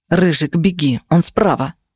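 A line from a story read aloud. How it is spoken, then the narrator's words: Whisper. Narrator (Russian): прошептал Феникс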